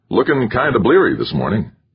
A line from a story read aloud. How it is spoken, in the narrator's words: said cheerfully